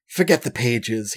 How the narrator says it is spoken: he mutters

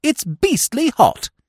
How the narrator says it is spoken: I said, gasping like a stranded goldfish

